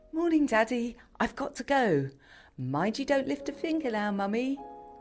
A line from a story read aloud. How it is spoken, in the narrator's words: called Annabel cheerfully